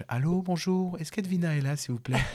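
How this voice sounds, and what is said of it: Thin, high-pitched polite voice. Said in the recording (French): “Je prends ma meilleure voix aiguë. ... quand je veux être poli, je prends une voix détimbrée comme ça.”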